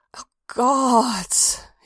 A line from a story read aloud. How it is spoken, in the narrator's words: groaned